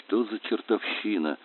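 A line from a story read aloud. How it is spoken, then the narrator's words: Muttered. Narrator (Russian): пробормотал он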